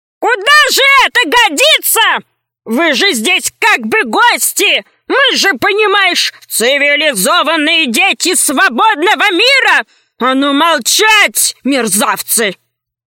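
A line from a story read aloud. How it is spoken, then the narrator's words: Menacing. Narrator (Russian): И прозвучали его слова так грозно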